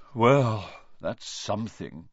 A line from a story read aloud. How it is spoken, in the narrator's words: Ronan sighed